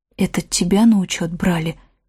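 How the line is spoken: Quiet question. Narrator (Russian): тихо спросила Ивка

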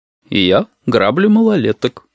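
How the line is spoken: Cooing, ironic. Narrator (Russian): проворковал с неподражаемой иронией

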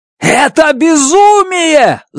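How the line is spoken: Yelled. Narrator (Russian): заорал я

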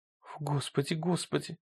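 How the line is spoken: Muttering. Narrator (Russian): пробормотала она

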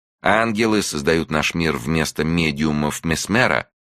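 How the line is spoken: Plain question. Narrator (Russian): спросила Юка

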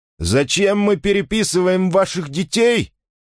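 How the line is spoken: Shouting. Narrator (Russian): крикнул он

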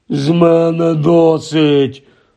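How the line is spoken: Groaning uncle. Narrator (Ukrainian): простогнав дядько Вернон

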